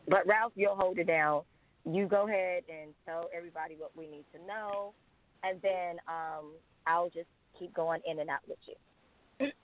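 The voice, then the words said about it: Strained, failing voice. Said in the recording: “my voice is sounded like a disaster tonight”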